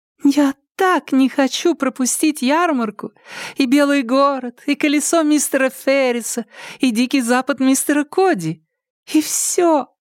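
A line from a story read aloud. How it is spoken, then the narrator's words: Childlike girlish exclamation. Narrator (Russian): воскликнула Хелен Джулия Хей таким голоском, словно ей не 18, а на 10 лет меньше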